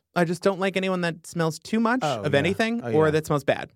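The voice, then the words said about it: Slight Long Island accent. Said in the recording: “Your little accent there is a little, you're like Long Island... A little Long Island came in. I've had a little vodka.”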